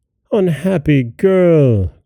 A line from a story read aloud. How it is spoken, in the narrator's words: cried Ali Baba and his son